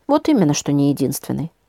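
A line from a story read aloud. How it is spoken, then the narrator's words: Sighing. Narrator (Russian): вздохнул Леня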